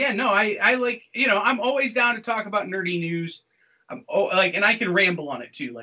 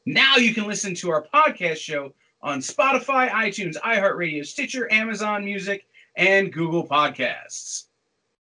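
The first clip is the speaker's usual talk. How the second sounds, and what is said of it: Radio announcer voice. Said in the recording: “radio no, announcer voice? ... I slipped into it there at the end.”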